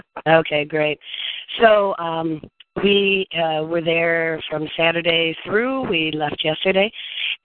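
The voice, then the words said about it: Hoarse, nearly lost voice. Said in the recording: “My voice is almost gone from being at the DNC the last couple of days.”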